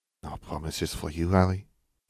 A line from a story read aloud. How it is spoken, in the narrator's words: Fleur whispered in his ear